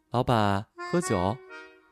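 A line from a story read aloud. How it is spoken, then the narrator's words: Soft. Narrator (Chinese): 小姐轻声说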